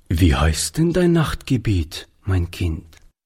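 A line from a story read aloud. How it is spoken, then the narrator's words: Plain. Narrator (German): fragte Oliver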